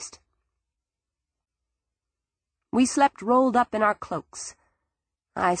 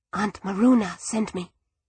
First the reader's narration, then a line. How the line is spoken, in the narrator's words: she whispered